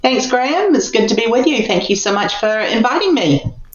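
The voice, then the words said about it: New Zealand accent. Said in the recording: “Pretty strange to hear a Kiwi accent there in the United States”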